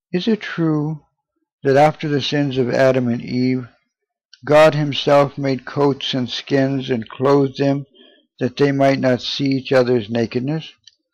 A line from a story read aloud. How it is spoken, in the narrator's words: She calmly, but with the air of dignity which no human words can express, said